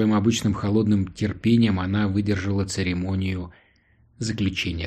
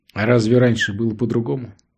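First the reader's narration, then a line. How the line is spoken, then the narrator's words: Calm question. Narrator (Russian): спокойно спросила Лоис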